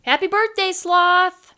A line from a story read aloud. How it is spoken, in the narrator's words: shouted his friends outside